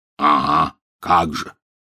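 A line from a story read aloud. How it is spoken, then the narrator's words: Scoffing snort. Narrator (Russian): снова хмыкнул Хагрид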